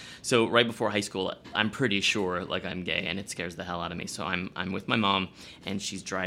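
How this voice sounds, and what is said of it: Usual voice. Nothing is said of it.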